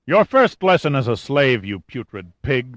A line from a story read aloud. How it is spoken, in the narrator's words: the mountainous woman spat